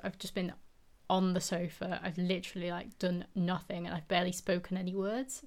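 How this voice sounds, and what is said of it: Strained voice gradually giving out. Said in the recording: “my voice has gone a bit funny. I think it has gone a little bit funny as I've been speaking ... I feel like my voice is just gradually giving out”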